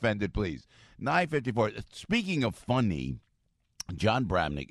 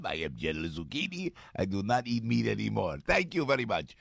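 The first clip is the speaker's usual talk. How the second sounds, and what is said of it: Put-on comic accent. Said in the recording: “I don't know what kind of accent that was.”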